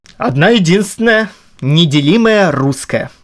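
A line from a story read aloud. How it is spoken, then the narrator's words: Solemn answer. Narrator (Russian): торжественно ответил Роман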